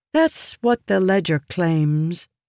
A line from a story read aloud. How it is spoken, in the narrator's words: Jasnah said